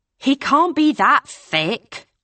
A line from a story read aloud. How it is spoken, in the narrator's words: Hannah said irritably